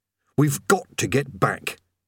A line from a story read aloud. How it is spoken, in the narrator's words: he said urgently